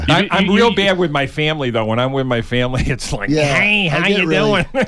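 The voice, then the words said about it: Rochester, Inland North American accent. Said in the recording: “No one's got that Rochester accent... That Rochester accent. But it does get accused of being a Chicago accent from time to time.”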